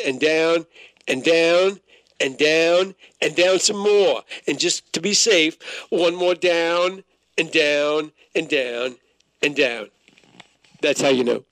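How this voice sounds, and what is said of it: Imitates another person's voice. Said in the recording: “that's my own sordid, poor attempt at a Fauci impression”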